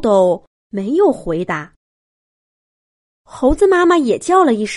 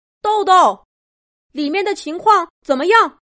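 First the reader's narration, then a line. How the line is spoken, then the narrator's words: Loud shout. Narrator (Chinese): 杜宾警长大声喊着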